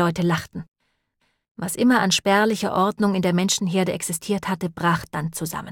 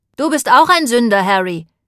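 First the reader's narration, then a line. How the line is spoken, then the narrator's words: Old woman calling out. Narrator (German): rief ein altes Weib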